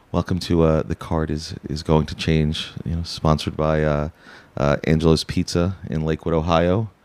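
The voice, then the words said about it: Mock public-radio announcer voice. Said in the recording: “in my NPR voice”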